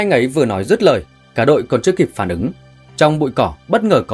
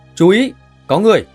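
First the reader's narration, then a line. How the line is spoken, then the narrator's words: Loud shout. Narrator (Vietnamese): Anh ấy liền hét lớn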